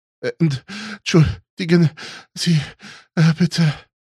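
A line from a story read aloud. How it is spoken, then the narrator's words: Breathless gasping. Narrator (German): japste Jonas und versuchte wieder zu Atem zu kommen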